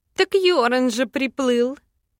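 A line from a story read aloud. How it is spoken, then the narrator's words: Giggle. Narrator (Russian): Хихикнула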